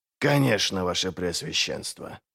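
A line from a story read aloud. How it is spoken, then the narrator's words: Muttered. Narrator (Russian): пробормотал Глокта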